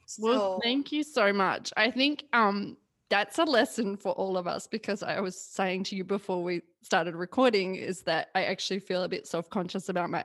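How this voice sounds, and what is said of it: Australian accent. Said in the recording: “love her Australian accent? It is the best.”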